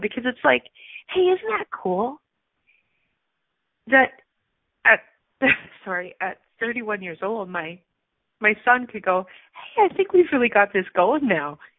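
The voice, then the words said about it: Teary, emotional voice. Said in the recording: “I'm getting a little teary right now”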